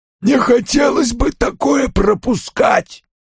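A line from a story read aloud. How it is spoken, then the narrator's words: Hoarse rasp. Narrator (Russian): прохрипел Фабиан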